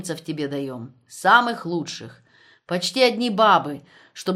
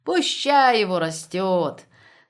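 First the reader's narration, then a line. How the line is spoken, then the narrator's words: Laughing. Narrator (Russian): засмеялась Татьяна Герасимовна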